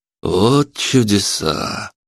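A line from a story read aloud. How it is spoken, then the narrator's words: Drawling. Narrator (Russian): протянул Палыч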